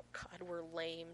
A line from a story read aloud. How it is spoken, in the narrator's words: John wheezes